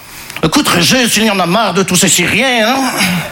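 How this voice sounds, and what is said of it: Put-on Belgian French accent. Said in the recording (French): “je prends l'accent belge parce que je ne sais pas faire l'accent chinois.”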